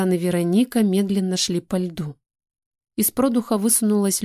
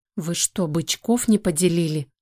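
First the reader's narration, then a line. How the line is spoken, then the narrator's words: Muttering. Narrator (Russian): бормотала Ника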